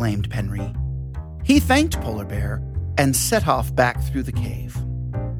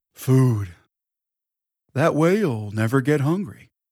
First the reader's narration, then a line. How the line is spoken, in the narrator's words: he sleepily replied